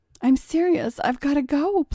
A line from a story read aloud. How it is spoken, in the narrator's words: pleaded John